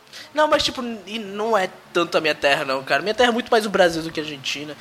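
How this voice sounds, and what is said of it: Argentine accent speaking Portuguese. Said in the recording (Portuguese): “o seu sotaque é uma parada inacreditável”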